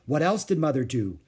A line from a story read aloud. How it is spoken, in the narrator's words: Beezus asked eagerly